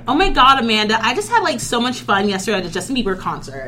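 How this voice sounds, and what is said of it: Stereotyped valley girl voice. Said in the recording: “I could use my white girl voice all the time”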